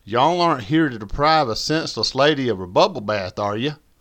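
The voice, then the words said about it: Caricatured southern drawl. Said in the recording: “A voice with a caricature southern drawl”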